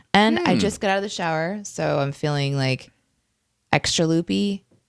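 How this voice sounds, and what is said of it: Deep, low early-morning voice. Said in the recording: “I haven't spoken yet this morning, so I sound like a man today.”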